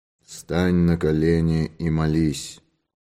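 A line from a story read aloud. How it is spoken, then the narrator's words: Hollow ghostly voice. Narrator (Russian): белую фигуру с мертвенно-бледным обезображенным лицом, которая глухим голосом произнесла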